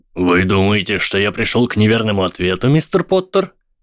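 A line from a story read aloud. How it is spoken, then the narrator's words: Cheerful asking professor. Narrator (Russian): весело поинтересовался профессор Квирл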